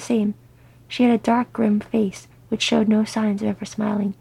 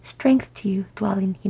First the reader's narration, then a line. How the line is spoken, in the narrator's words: he murmured